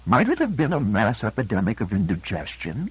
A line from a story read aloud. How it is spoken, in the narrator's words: He sneered as though the suggestion were beneath contempt